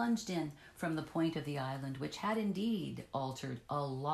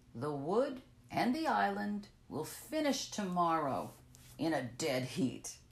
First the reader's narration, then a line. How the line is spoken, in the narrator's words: he laughed